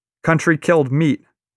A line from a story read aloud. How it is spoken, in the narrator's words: cries another